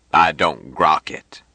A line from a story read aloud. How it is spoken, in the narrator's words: Jubal answered gruffly